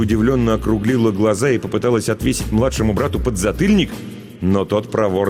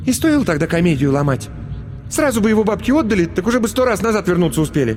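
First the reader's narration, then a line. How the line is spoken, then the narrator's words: Irritated, curt retort. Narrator (Russian): стараясь оставить последнее слово за собой, раздраженно бросила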